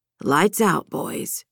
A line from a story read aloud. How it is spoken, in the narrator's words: Marcus said softly to those who remained awake